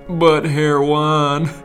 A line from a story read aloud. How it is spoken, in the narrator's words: Bill chuckled